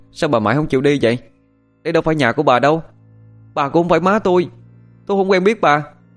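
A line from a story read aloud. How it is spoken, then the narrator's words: Loud, irritated. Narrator (Vietnamese): tỏ ra khó chịu, lớn tiếng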